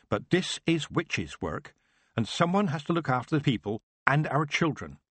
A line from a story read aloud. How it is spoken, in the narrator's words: his wife said firmly